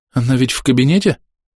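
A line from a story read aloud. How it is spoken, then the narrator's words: Anxious question. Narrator (Russian): взволнованно спрашивает Хлоя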